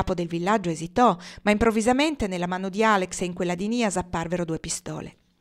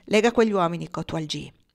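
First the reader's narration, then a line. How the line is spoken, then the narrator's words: Low voice. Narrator (Italian): disse a bassa voce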